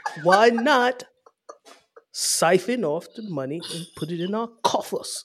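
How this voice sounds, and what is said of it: Put-on British accent. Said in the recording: “I wasn't ready for UK news ... I pulled that UK accent”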